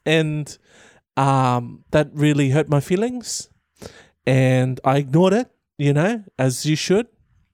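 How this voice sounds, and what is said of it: Inconsistent put-on Lebanese/South African accent. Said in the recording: “This accent is like waning between like potentially Lebanese and maybe even South African. It's all over the place.”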